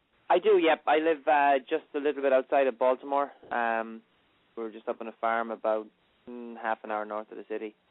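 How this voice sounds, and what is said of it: Irish accent. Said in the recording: “I love the accent ... You came over here from Ireland”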